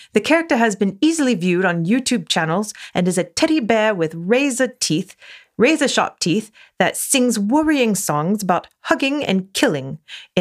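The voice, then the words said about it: Put-on accent, Paddington-like voice. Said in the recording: “I'm going to try and do the accent again. ... Thanks, Paddington.”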